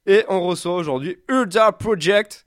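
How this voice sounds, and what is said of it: Bad English accent. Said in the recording (French): “j'ai fait mon super accent anglais pourri ... il est au courant que j'ai un accent anglais pourri”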